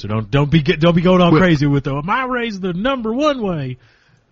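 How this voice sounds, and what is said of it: Put-on Southern American accent. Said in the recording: “I don't know why I did Southern accent.”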